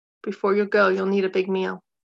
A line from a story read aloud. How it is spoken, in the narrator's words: Mother said evenly